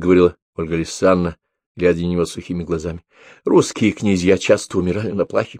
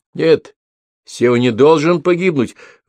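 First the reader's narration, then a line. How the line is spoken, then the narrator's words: Shouted. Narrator (Russian): выкрикнул Тимофей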